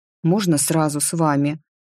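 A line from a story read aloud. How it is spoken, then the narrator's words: Grumbled. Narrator (Russian): буркнул приемыш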